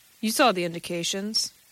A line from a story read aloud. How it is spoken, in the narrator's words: said sharply